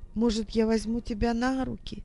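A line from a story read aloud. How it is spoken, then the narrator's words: Quiet question. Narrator (Russian): тихо спросила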